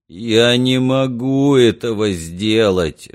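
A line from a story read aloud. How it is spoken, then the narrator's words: Pitiful voice. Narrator (Russian): жалким голосом произнес Уэйкфилд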